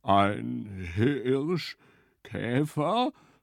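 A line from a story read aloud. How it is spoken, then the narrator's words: Stammering. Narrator (German): stammelte Hirsch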